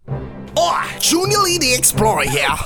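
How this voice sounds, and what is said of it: Unconvincing put-on accent. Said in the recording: “That accent is talking good at all.”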